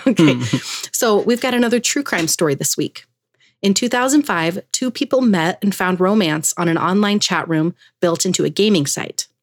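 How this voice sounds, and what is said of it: Slightly hoarse, strained voice. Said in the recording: “I'm like kind of losing my voice a little bit.”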